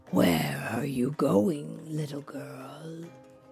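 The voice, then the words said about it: Sweet dragon character voice. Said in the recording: “Dragon asked in a sweet voice. Well, for a dragon.”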